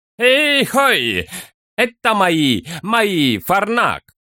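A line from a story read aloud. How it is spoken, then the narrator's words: Cheerful shout. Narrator (Russian): весело крикнул он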